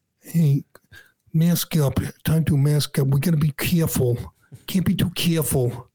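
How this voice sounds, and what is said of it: Imitates another person's voice. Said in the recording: “best impression I've ever heard ... no one else does a Fauci”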